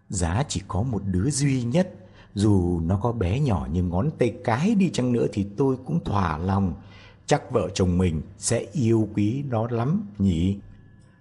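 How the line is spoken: Sighing reply. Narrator (Vietnamese): Bác gái cũng thở dài đáp

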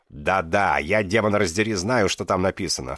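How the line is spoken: Snorting. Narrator (Russian): фыркнул Крипа

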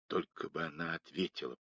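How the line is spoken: Whispered. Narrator (Russian): прошептал Мейсон

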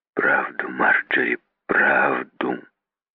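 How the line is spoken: Muffled repeating. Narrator (Russian): Глухо он повторил

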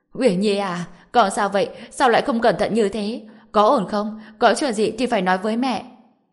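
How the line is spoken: Loud wailing. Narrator (Vietnamese): bà ta đã cao giọng khóc lóc

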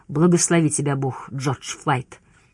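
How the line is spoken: Spluttering growl. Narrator (Russian): Ребус прорычал в нее, брызгая слюной

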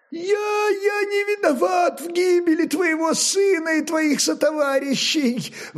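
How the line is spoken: Terrified tongue-tied babbling. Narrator (Russian): Вдруг ставшим непослушным языком лепетал перепуганный насмерть купец

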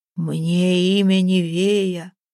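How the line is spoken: Booming dreadful voice. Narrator (Russian): прогудела, голос, как ветер, насыщенный горячим пеплом, наполнял душу ужасом безнадежности

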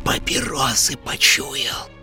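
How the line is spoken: Barely audible hiss. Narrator (Russian): прошипела на грани слышимости Зинаида Петровна

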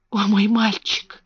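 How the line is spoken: Whispered. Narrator (Russian): прошептал

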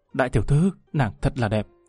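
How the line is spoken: Entranced mutter. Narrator (Vietnamese): Lâm Văn Vinh nhìn tới ngây ngất lẩm bẩm

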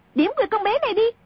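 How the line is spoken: Sudden shout. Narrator (Vietnamese): A Tử bỗng quát lên

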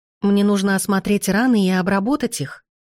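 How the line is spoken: Plain. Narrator (Russian): сказала я

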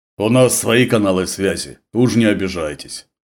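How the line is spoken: Deep bass voice. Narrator (Russian): пробасил Владимир

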